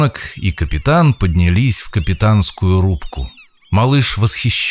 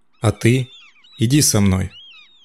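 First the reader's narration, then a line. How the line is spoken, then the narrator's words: Said affectionately. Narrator (Russian): ласково сказал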